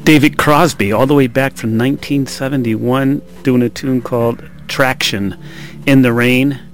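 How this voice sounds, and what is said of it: Slightly out of breath. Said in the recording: “I'm a little out of breath”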